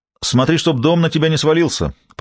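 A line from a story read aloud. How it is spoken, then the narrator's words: Shouted after someone. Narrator (Russian): прокричал Габри вслед Рут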